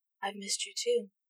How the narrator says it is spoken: she said softly

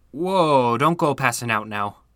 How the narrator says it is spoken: said with a sigh

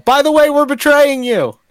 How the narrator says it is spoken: yell

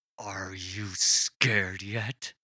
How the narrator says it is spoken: Brendan growled through gritted teeth

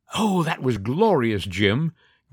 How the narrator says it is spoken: gasped the actress

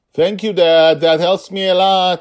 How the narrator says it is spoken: shouted through the wind

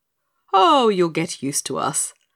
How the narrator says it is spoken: laughed the fisherman

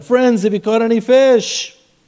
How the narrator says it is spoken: He called out to them

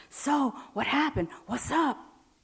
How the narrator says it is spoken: asks in an excited whisper

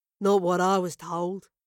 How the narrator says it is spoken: growled a third, hoping to conjure a sense of mystery

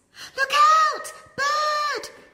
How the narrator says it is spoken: cried in panic

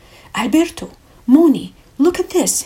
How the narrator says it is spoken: he exclaimed

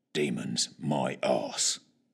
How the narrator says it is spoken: muttered, to no one in particular

